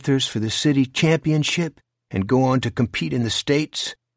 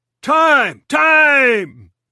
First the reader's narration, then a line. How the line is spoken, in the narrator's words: the home plate umpire bellowed